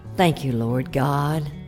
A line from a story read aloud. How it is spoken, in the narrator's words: said softly